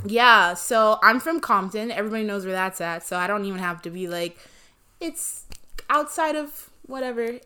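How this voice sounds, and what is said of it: Los Angeles accent. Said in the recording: “I'm a LA bitch down. ... I don't know if y'all can tell from my accent.”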